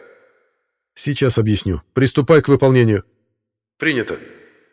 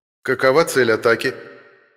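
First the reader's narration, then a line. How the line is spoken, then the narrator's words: Businesslike ghostly inquiry. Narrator (Russian): деловым тоном поинтересовался призрак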